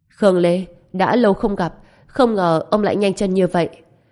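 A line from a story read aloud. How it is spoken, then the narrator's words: Cold. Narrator (Vietnamese): Ông lạnh lùng nói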